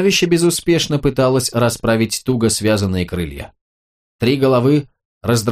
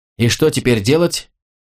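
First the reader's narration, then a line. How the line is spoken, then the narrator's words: Frightened squeal. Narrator (Russian): испуганно заверещал Мук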